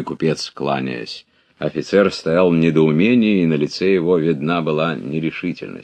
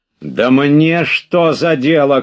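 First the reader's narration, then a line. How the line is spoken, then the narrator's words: Shout. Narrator (Russian): крикнул он друг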